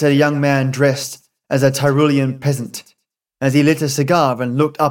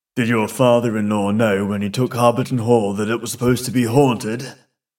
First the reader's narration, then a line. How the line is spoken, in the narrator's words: He said in a low voice to Mr